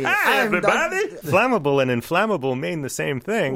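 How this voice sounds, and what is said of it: Imitates a cartoon character's accent. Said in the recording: “Dr. Nick Riviera. I don't do a very good accent for him”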